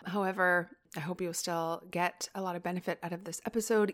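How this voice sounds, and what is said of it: Sick, congested voice from a cold. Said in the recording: “you may be able to hear I still have a little bit of a cold ... my voice is a little bit sickly ... it doesn't sound so great”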